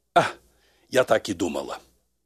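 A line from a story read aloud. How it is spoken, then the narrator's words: Deep sigh. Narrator (Russian): глубоко вздохнула и сказала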